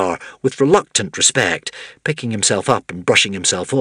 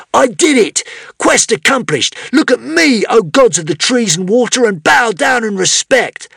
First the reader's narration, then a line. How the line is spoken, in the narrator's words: shouted